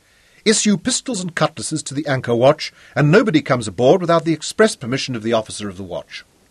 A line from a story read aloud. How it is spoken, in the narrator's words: Clinton called sharply